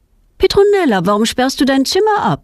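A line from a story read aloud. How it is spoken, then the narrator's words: Calls out. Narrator (German): ruft ihre Mutter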